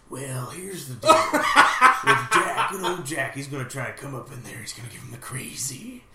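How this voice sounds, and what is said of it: Jack Nicholson impression. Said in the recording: “Do you have a Jack Nicholson impersonation?”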